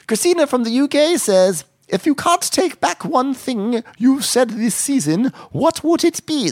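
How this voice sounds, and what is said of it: Attempted British accent. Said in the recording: “that was my attempt at a British accent”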